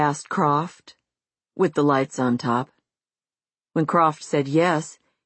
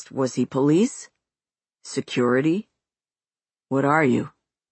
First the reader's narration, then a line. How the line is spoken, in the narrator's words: His voice was deep, clear, and distinctive, which Croft found unusual for someone in his 20s